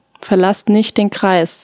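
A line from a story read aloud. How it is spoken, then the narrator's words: Plain. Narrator (German): sagte er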